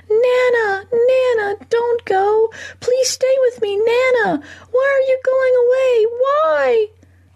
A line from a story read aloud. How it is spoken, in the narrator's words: The little boy screaming